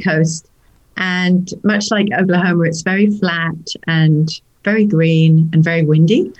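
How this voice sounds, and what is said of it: English accent from Norfolk, UK. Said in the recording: “that's why I still have my accent ... I'm originally from a place called the nearest town is Norwich. It's in Norfolk, in the UK”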